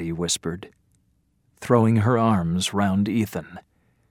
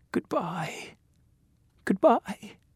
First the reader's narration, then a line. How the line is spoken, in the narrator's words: she said in a shaking voice